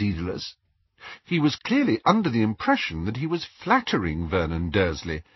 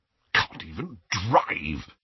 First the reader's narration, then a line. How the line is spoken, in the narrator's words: he muttered under his breath, his moustache rippling indignantly